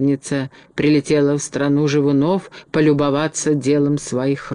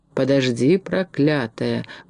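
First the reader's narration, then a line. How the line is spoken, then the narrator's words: Muttering. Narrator (Russian): бормотал капитан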